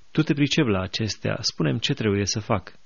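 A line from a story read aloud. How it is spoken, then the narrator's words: Calm. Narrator (Romanian): Socrate, liniștit, i-a zis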